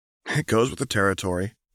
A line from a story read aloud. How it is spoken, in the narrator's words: murmured Anna